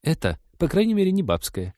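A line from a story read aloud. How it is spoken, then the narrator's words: Guilty giggle. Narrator (Russian): виновато хихикнула сестра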